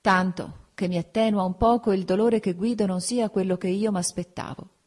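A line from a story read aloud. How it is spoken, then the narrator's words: Sigh. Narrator (Italian): con un sospiro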